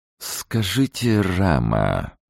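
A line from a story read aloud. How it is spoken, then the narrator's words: Melodious voice. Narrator (Russian): благозвучным голосом произнес он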